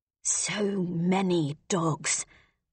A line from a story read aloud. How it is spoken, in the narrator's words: Rolf murmured